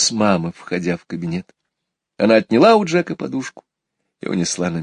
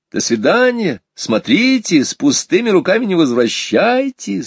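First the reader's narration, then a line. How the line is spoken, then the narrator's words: Laughing shout. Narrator (Russian): смеясь, кричала нам вдогонку мама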